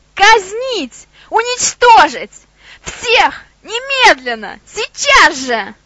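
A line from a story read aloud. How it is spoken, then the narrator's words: Shrieking like spoiled child. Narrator (Russian): Визжала она как капризная маленькая девочка, у которой отняли любимую куклу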